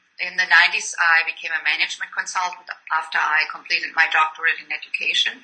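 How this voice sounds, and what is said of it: German accent. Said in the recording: “you can tell by my accent that I didn't grow up in the United States. I came from Germany”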